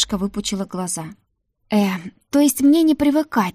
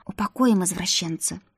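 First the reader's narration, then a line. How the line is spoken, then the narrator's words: Quiet grumble. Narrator (Russian): тихо пробурчала я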